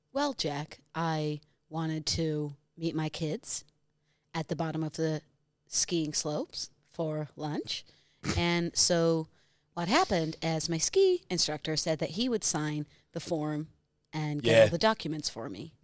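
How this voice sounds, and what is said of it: American accent impression of Gwyneth Paltrow. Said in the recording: “I think the way I just did Gwyneth ... it was a good accent. Yeah, it was not a bad American accent. It's probably the best accent I've heard you do ... Not bad ... Best you done.”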